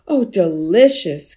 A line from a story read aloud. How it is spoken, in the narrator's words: cried another villager